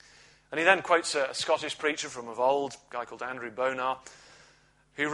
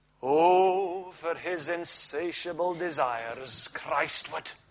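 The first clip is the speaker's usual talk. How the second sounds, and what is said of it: Put-on Scottish accent. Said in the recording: “Oh, okay, we'll forget the Scottish accent.”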